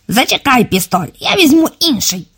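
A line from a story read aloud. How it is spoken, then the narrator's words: Fat man squeaking. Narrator (Ukrainian): пропищав товстий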